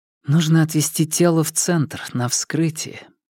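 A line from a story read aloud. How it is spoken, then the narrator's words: Quiet. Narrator (Russian): тихо произнесла Лэй Жун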